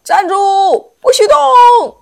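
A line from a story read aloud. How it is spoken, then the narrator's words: Loud roar. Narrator (Chinese): 大吼一声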